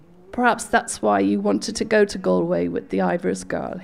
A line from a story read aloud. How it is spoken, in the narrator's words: said coldly